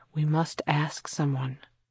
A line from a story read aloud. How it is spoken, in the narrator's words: murmured